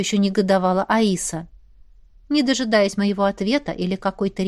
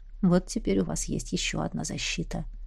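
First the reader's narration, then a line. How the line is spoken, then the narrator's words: Said quietly, prince. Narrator (Russian): тихо сказал князь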